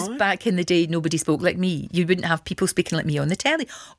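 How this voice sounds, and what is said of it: Glasgow Scottish accent. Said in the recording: “I've got a Glasgow accent”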